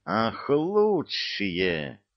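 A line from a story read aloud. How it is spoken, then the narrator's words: Hissing into phone. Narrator (Russian): зашипел в трубку дьявол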